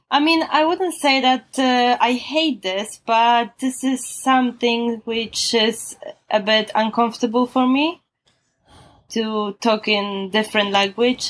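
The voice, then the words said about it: Polish-accented English. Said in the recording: “you really can't get rid of this Polish accent.”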